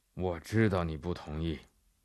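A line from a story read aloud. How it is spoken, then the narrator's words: Flat, indifferent reply. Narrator (Chinese): 英格曼神父淡淡地回答法比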